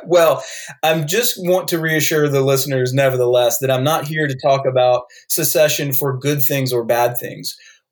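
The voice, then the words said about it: Southern American accent. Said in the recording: “coming on your show with a Southern accent”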